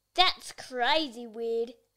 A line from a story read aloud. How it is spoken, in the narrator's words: Joe laughed